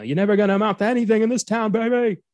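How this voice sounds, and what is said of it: Imitates a famous singer's voice. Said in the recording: “my Frank Sinatra impression”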